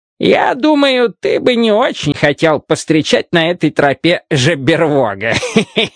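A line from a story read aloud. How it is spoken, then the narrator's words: Speaking, then hearty laughter. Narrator (Russian): сказал он и смачно захохотал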